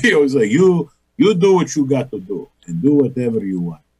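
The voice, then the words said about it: Imitated Greek American accent. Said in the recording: “my father with that Greek American accent.”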